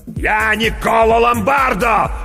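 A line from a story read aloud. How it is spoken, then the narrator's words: Shout. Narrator (Russian): закричал мастер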